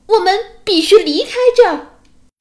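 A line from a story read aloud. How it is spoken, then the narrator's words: Loud, courageous shout. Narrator (Chinese): 匹诺曹不知从哪里来了一股巨大的勇气，他大声叫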